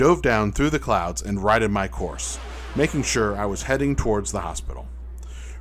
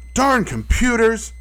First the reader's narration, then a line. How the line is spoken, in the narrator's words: I shouted as the two pilots each fired a rocket at me